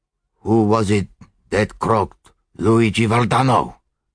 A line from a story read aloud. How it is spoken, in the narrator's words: asked the Italian hoarsely